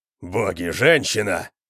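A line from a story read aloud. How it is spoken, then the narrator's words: Roar. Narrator (Russian): взревел Конан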